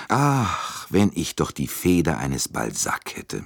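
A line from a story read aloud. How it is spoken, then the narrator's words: Sighing. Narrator (German): sagte er seufzend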